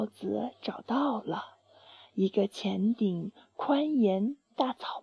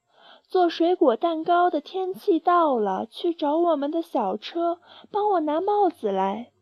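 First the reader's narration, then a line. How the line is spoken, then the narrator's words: Loud announcement. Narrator (Chinese): 他大声宣布说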